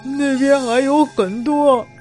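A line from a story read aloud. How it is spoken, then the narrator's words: Weeping. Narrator (Chinese): 苏醒过来的马六唯一在我身上哭泣着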